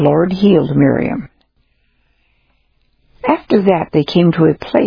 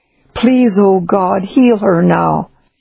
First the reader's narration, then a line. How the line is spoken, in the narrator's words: Moses cried out to the Lord and said